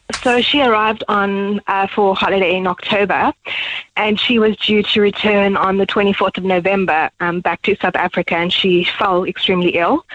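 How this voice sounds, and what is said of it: Emotional, choked-up voice. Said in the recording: “Sorry if I get emotional. ... I can understand why you would get emotional”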